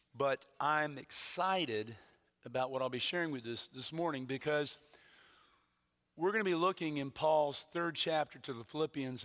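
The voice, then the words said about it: Hoarse voice. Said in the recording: “I'm a little hoarse this morning, been a little under the weather over the weekend”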